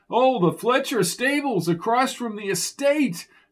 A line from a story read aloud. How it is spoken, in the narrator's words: yelled Lark